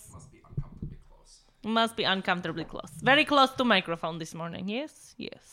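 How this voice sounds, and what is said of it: Put-on Russian accent. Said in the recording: “Are we going to talk in a Russian accent all day? ... Yes, we are.”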